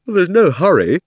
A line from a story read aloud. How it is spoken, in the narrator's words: said Diggory with a huge yawn